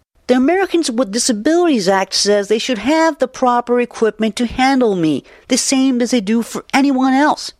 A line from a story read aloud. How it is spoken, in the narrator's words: says indignantly